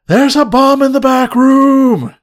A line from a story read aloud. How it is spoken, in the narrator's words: He just yells out loudly